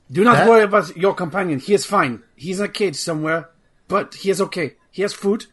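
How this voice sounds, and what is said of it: Bad French or Russian accent. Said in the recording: “a bad French accent or a bad Russian accent, but it's offensive to multiple people... keep that accent up”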